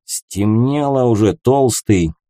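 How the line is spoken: Nasal twang. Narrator (Russian): прогнусавил крепыш с ввалившимся носом

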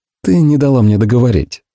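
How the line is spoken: Soft. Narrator (Russian): мягко ответил я

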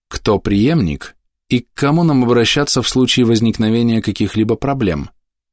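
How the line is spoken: Calm question. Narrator (Russian): спокойно спросила мадам

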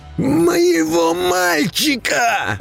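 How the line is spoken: Shouting. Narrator (Russian): крикнул он вновь

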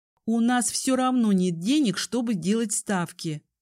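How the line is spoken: Hissed. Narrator (Russian): прошипела я

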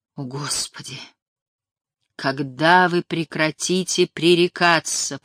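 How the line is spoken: Groaning. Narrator (Russian): простонал Сэм

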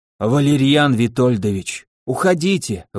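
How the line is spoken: Breathless exhale. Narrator (Russian): выдохнул он

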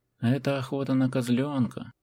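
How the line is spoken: Moaning. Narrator (Russian): простонал двузубый

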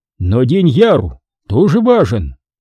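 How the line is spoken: Angry thundering voice. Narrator (Russian): Бендату гневно прогрохотал

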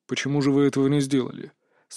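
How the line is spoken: Dry inquiry. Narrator (Russian): Сухо осведомился Лендаорн

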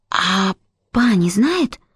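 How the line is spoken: Whispered question. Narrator (Russian): шепотом спросила Эмилин

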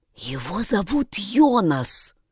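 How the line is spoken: Whisper. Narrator (Russian): прошептала она

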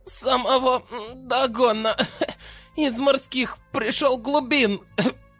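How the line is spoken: Drunken babbling. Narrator (Russian): Пьяно пролепетала Дина

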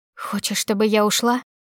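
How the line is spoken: Furious hoarse wheeze. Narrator (Russian): просипела с яростью

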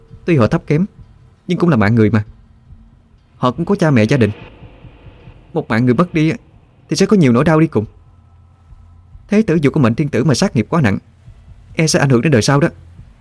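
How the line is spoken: Angry. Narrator (Vietnamese): Hòa Hương liền tức giận nói

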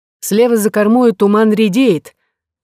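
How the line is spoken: Sailor shouting. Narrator (Russian): крикнул кто-то из матросов

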